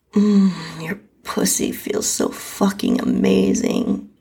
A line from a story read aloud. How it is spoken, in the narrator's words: he moaned